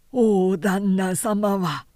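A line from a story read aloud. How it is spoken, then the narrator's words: Low voice. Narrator (Japanese): と和助は低い声で言った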